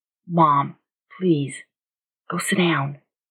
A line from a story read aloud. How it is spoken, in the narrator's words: Jackson said gently